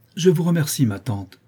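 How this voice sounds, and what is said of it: Haughty, proud tone. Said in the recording (French): “d'un ton presque aussi hautain que celui de la comtesse”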